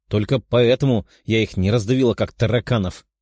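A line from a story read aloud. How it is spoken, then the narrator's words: Snorted. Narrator (Russian): фыркнула она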